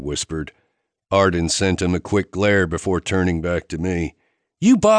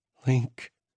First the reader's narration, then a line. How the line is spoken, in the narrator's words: she whispered